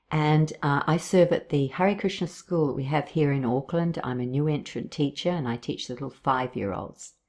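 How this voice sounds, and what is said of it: Australian accent. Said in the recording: “I hail from Australia, thus the accent.”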